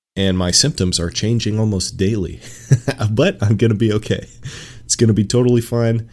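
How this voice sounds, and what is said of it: Stuffy, congested sick voice. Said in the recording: “tell from my voice, I'm a little sick... I'm stuffy.”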